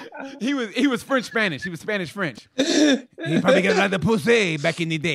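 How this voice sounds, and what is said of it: Put-on Spanish-French accent. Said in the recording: “you have a Spanish-French accent.”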